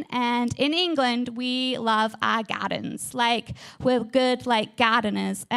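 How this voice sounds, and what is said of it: English accent. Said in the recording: “I am from England. I have this amazing, beautiful accent.”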